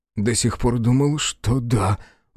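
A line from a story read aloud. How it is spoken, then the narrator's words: Breathed out. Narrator (Russian): выдохнул А2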